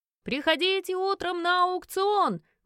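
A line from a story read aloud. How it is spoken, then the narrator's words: Loud calling, guards. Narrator (Russian): Громко зазывали наши стражники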